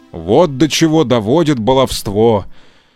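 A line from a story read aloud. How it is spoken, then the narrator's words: Grumbling. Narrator (Russian): проворчал папа Карло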